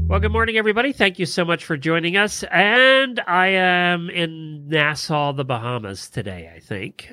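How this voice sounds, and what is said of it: Congested, sick-sounding voice. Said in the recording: “I have a cold, so wow. I apologize to everybody for how I sound.”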